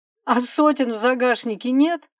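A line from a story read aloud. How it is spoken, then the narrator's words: Smirking grunt. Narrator (Russian): хмыкнул Денис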